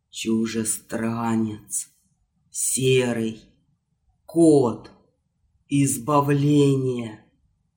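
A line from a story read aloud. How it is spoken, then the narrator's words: Shuddering wizard's hoarse wheeze. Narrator (Russian): содрогнувшись всем телом, как будто от удара молнии, волшебник прохрипел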